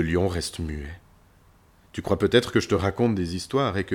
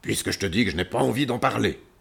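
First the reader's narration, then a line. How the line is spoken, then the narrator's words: Roaring. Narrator (French): dit-il cette fois en rugissant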